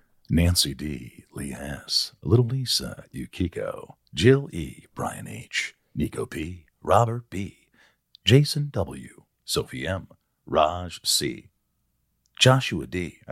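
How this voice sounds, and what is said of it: Radio announcer voice. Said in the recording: “Let me see if I could do radio voice.”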